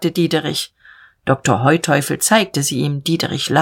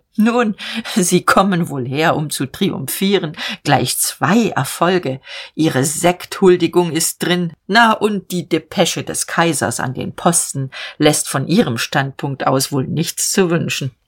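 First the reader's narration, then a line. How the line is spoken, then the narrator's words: Short laugh, then speaking. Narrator (German): lachte kurz und sagte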